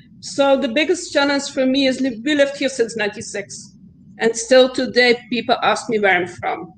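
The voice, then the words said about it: Strong foreign accent. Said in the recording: “I know I have a huge accent”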